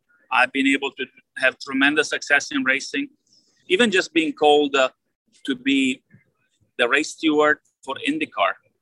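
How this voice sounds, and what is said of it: Noticeable foreign accent. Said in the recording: “a guy with my accent”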